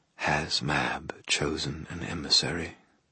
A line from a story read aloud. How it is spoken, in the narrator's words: whispered near my ear